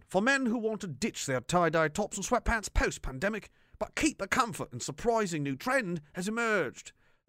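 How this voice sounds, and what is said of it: Put-on British accent. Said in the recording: “so the British accent will continue. I'm going to do the different one.”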